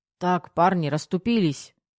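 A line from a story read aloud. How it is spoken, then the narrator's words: Booming bark. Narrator (Russian): Зычно гаркнул Ермаков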